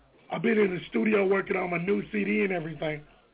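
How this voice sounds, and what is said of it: Hoarse, nearly lost voice. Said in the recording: “my voice is gone. ... I've never heard you sound like this. ... Just my voice.”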